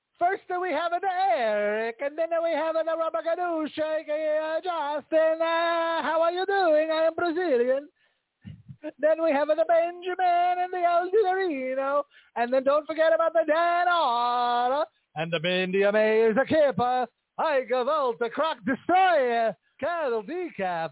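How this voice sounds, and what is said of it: Put-on Brazilian accent. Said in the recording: “I'm going to do it in my Brazilian accent.”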